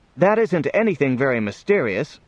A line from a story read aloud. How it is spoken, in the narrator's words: said Johnny, pointing excitedly